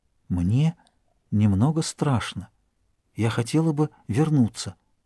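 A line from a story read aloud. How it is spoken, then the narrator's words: Whispered. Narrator (Russian): Она прошептала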